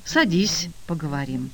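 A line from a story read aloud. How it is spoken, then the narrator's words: Sighing, then speaking. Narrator (Russian): Петя вздохнул и сказал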